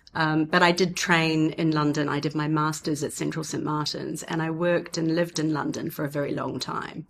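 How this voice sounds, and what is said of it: Mixed New Zealand-British accent. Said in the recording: “my accent is a mix of the cities I've lived in. You know, when I talk, people sometimes ask me if I'm British, but I'm not British either”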